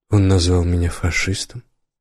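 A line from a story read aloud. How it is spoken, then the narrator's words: Calm. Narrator (Russian): сказал спокойно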